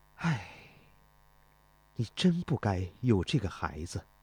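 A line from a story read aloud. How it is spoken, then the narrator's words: Sighing heavily. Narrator (Chinese): 他长叹一声说道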